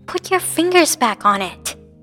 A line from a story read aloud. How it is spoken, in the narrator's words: Rika hissed